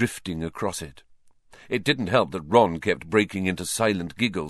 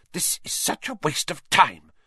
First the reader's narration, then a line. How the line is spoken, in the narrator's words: Hermione hissed